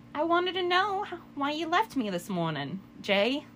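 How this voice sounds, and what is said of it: Put-on Harley Quinn character accent. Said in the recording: “I'm gonna do a shitty Harley Quinn accent”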